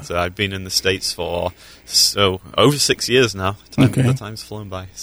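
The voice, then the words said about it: Yorkshire English accent. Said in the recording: “we can tell by the accent, you're from England ... I'm from Yorkshire in the north of England.”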